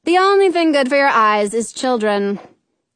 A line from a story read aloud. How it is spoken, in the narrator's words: Patty says flatly